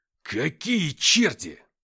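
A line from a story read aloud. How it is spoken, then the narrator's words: Growling. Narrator (Russian): зарычал Кириенко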